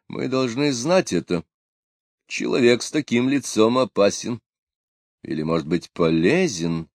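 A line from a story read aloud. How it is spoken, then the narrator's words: Very quiet. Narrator (Russian): сказал он совсем тихо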